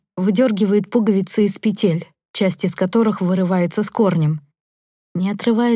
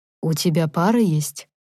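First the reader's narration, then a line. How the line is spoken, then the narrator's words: Very muffled voice. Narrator (Russian): Его голос звучит очень глухо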